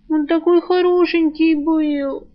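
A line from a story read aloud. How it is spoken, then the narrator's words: Miserable sobbing. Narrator (Russian): всхлипнула девушка, чувствуя себя хуже некуда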